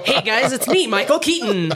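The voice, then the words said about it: Imitates another person's voice. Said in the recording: “Bad imitation.”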